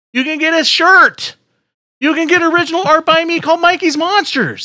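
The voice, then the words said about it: Yelling, loud delivery. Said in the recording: “you're yelling again... my voice is going out”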